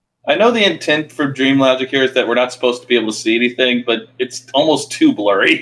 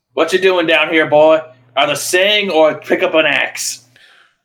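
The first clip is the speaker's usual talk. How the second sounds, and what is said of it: Exaggerated comedy Southern accent. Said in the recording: “just be doing a comedy Southern accent ... they're all comedy Southern accents going, ha ho, ha ho.”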